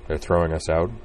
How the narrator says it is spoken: he murmured with a faint smile

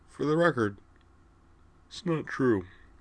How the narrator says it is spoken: she yawned again, then added in a thicker voice

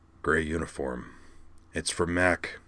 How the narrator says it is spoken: he muttered

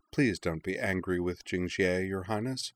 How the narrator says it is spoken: said Queen Qian gently

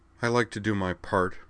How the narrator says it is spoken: said Liza stiffly

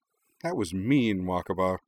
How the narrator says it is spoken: Hikaru sighed when she'd finished laughing

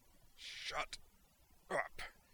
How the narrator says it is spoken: he snarled

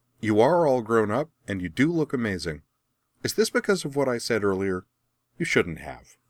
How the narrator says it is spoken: grinning brightly, she added

